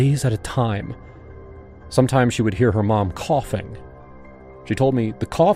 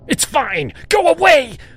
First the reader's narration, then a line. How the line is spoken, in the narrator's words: Becca yelled